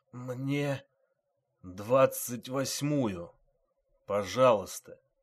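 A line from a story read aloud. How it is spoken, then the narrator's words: Muffled wounded man. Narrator (Russian): глухо сказал раненый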